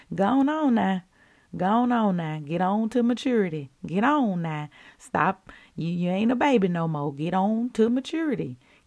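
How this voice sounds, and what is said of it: Put-on Southern US accent. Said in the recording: “if I were to say it in my southern voice”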